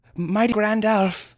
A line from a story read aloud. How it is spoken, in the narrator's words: eventually panted